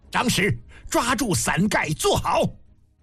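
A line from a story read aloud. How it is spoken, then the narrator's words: Loud. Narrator (Chinese): 嬴政高声道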